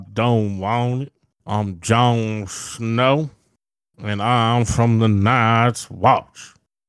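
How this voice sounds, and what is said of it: Drawly Louisiana Southern accent. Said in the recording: “She's in Louisiana ... Real drawly on Sansa”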